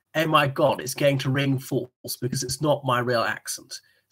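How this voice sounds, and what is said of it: Exaggerated super posh British accent. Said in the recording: “the super posh accent ... in that pucker accent, not just my ordinary accent ... turn up the plum factor several steps”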